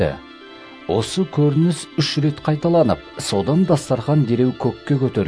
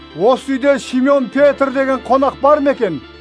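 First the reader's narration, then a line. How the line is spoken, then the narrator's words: Loud question. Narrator (Kazakh): деп дауыстап сұрады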